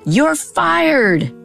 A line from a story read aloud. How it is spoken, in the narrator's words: her shout reverberated around the checkerboard room